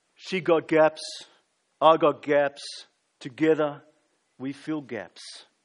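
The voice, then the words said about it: Imitated movie character accent. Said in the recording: “can I do the accent? ... I don't know if I did Rocky very well for you there.”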